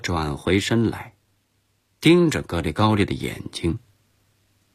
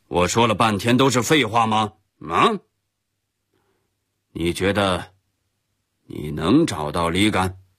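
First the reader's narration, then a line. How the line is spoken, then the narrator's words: Sharp, stern after throat-clearing. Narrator (Chinese): 格里高利突然清了清嗓子，厉声对我说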